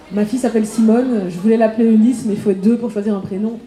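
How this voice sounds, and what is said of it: Belgian French accent from Liège. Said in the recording (French): “je viens de Liège, vous entendez peut-être mon accent”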